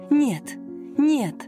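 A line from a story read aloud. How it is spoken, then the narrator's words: Tearful plea. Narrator (Russian): сквозь слезы попросила Жанна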